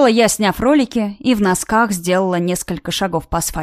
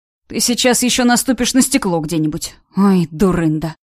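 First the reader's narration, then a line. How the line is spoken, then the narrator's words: Sighing. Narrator (Russian): вздохнул Ваня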